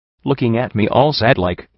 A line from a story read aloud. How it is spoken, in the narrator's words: he said sharply